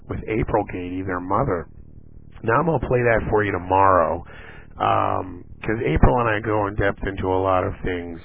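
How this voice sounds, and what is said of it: Rough, gravelly sick voice. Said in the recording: “my voice is a little messed up. I've been sick, and you know, it affects me in my voice ... I don't always sound like a Marine drill sergeant”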